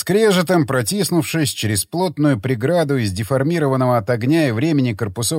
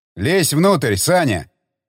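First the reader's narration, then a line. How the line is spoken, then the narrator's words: Said sharply. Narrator (Russian): резко бросил Тигран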